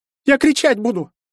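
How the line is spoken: Squeaking girl, then wailing. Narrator (Russian): пискнула девчонка и заревела

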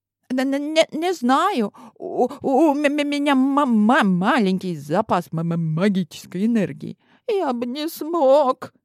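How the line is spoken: Frightened babbling. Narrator (Russian): лепетал перепуганный Азат

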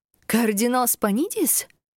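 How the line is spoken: Old woman exclaiming. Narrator (Russian): воскликнула старушка

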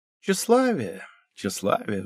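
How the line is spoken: Sighing. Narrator (Russian): вздохнул Вик

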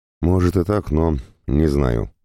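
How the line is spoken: Sighing. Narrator (Russian): вздохнул Рёта

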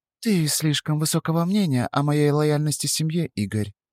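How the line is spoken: Quiet speech. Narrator (Russian): тихо сказала она

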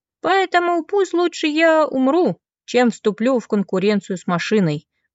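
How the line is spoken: Laughing. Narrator (Russian): посмеялся таксист

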